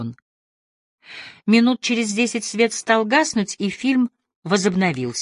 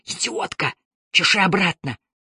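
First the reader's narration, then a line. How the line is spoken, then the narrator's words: Hiss. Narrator (Russian): зашипел на меня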